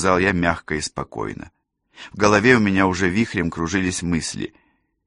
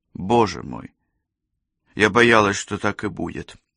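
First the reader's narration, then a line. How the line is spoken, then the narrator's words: Sighing. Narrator (Russian): вздохнула Розалинда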